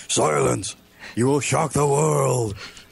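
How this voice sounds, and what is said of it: Booming impression of the Shockmaster. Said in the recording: “Shockmaster, your voice doesn't really fit your body language. There's somebody doing the voice in another room.”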